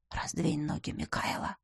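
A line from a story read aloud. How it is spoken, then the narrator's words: Hoarse command. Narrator (Russian): муж хрипло приказал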